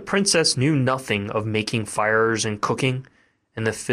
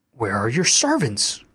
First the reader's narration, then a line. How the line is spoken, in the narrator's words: cried she